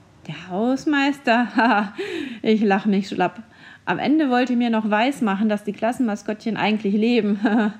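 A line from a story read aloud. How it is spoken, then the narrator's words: Laughing. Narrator (German): lachte Herr Schubert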